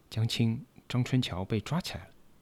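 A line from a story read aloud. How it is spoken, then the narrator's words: Hushed whisper. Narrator (Chinese): 我的队员李国宁压低了声音，悄悄地说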